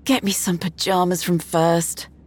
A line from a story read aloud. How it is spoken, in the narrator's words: Rita sighed